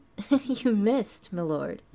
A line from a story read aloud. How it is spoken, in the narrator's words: he chuckled